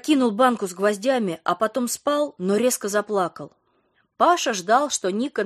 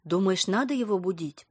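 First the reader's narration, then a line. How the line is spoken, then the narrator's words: Whisper. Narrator (Russian): прошептала Ника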